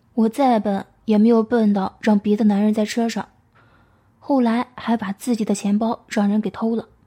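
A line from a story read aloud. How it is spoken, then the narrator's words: Sighing. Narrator (Chinese): 我叹道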